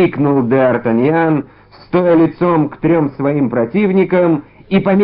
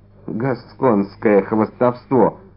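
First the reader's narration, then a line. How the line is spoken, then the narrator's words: Muttered. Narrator (Russian): пробормотал незнакомец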